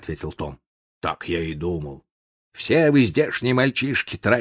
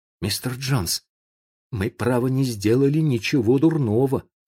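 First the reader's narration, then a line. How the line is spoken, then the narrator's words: Timid. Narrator (Russian): сказал он робко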